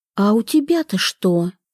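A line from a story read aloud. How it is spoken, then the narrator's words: Whispered question. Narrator (Russian): шепотом поинтересовалась она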